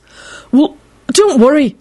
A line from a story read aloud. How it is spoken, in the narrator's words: Neville blurted out in a frightened voice